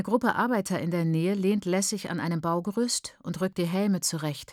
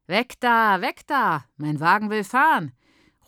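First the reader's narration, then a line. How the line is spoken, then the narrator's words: Calling out. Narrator (German): ruft er der Frau aus deinem Wohnheim zu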